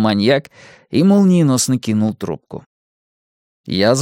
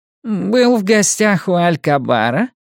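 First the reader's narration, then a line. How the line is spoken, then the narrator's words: Honeyed voice. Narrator (Russian): медовым голосом спросил он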